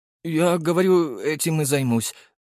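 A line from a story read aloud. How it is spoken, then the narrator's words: Trembling voice. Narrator (Russian): дрогнувшим голосом сказал тренер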